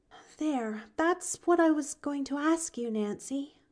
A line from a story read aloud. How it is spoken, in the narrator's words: she sighed